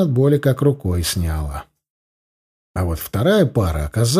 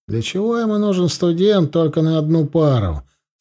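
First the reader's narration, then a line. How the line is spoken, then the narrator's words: Mild grumbling. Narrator (Russian): профессор, который вначале немного ворчал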